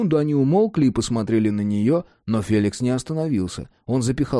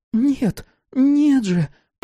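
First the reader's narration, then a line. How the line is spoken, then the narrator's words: Childish babble. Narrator (Russian): По-детски пролепетала Давид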